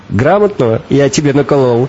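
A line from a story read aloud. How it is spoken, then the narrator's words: Question then laughing. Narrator (Russian): Спросил водитель, сам же засмеялся своей шутке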